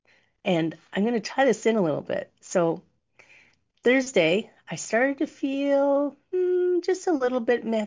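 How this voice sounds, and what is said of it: Slightly hoarse voice. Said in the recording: “you might notice I'm a little hoarse today... last week I got sick”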